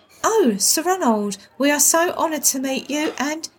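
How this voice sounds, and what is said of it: Affected polite telephone voice. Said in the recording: “in her best telephone voice”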